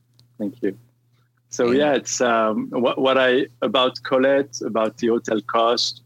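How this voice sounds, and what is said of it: Lebanese-French accent. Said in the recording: “that accent is, he's Lebanese and raised in France”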